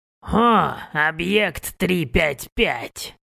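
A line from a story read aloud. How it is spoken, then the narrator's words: Delighted old voice. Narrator (Russian): обрадованно произнес он старческим голосом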